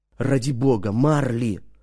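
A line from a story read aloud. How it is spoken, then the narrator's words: Whisper. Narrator (Russian): шепнул я ему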